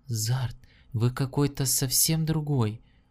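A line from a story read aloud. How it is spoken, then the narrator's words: Whispered. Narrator (Russian): прошептала Лианна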